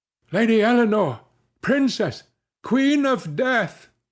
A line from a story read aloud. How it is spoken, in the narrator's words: cried Gervaise Helwise